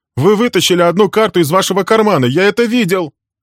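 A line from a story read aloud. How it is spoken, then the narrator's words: Young man shouting. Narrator (Russian): кричал молодой человек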